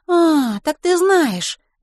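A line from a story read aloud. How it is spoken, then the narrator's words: Exclaiming. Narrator (Russian): воскликнула Милослава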